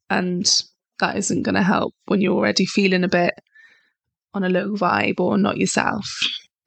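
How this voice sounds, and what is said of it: Croaky, hoarse voice. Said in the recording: “apologize for my voice. Probably by the end of this, it's sounding a bit croaky, but I'm still getting over that cold flu”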